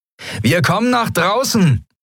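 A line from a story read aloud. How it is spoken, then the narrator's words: Called out. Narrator (German): rief Sephiron den Jadi-Piraten zu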